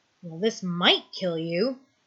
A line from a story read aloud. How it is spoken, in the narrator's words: he mutters